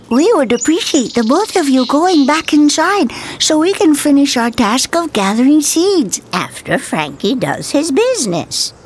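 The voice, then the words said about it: High, squeaky squirrel voice. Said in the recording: “spoke in a high, squeaky voice”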